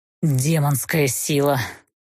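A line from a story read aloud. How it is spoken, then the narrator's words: Almost growled. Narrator (Russian): почти прорычал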